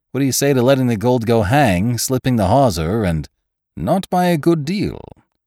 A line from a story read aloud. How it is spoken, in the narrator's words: exclaimed Ned coolly